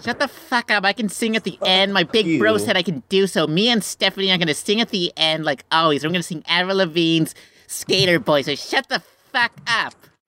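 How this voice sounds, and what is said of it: Put-on Emily character voice. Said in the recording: “do your Emily voice”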